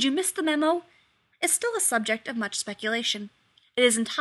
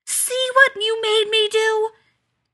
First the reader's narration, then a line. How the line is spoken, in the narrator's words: She screamed even louder